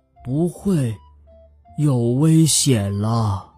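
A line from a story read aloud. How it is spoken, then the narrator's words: Gentle, slow alien voice. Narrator (Chinese): 德拉夫拉星人用温柔的声音慢慢的说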